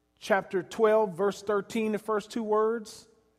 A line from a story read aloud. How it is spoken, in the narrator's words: they shouted